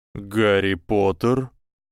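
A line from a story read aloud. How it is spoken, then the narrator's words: Silky insinuating voice. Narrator (Russian): сказанные вкрадчивым голосом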